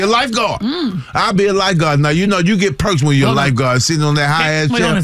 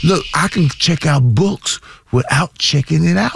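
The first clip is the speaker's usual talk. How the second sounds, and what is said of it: Whispering. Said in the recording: “I'm whispering”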